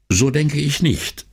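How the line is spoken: Plain. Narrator (German): sagte er

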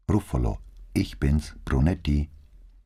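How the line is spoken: Soft call. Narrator (German): rief leise

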